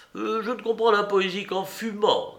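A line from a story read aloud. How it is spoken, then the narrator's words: Plain. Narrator (French): dit-il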